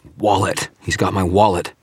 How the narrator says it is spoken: dragged in a breath and managed to gasp

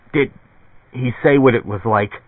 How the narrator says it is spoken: A spasm passed through Bob Arctor, convulsing him, and then he choked out

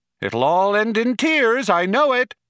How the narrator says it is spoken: shouted Eddie after them

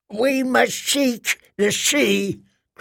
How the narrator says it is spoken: cried Mother Mole

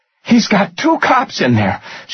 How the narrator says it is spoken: said urgently

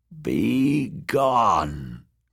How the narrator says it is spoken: croaked Maggie a third time

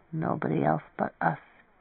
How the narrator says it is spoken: Nitz murmured defiantly

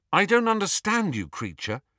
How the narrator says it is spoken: he said finally

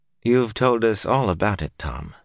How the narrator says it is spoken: the older woman said sadly

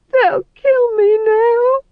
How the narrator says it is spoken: he wailed

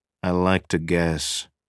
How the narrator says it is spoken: Cusick said flatly

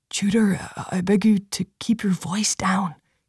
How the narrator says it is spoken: Phelan whispered, shrinking smaller in his seat

